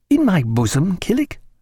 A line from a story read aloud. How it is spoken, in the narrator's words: answered Stephen, in a conciliating tone